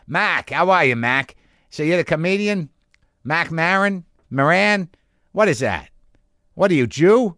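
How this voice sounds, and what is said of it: Imitated Boston accent. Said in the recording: “that accent ... I was in Boston ... Every variation I heard of that accent”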